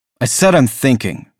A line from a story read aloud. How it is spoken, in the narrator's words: snapped